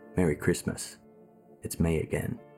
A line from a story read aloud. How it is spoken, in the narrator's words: He whispered